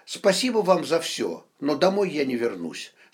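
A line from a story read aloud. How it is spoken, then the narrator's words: Calm. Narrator (Russian): спокойно ответила она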